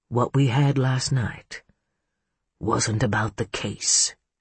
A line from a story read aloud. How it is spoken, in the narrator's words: he murmured